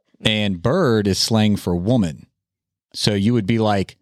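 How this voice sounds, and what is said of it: Usual voice. Nothing is said of it.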